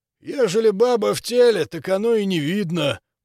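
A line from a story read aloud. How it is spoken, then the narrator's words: Booming male voice. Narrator (Russian): прогудел он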